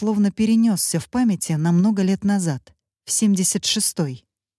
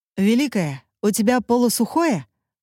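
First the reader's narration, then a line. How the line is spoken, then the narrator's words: Loud question. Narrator (Russian): громко спрашивает с порога он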